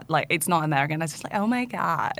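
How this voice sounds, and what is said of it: Valley girl Californian accent. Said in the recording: “Oh, that's so Valley girl. Oh my God. ... Very Californian. Very like, Valley girl. ... Valley Girl, sorority girl accent. ... Kim Kardashian accent? ... It's LA. It's very LA.”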